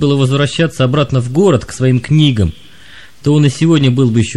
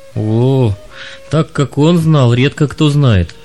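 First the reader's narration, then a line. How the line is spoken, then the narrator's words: Sighing young man. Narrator (Russian): вздохнул юноша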